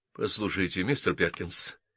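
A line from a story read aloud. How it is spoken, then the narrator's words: Hurried. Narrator (Russian): торопливо сказал Дункан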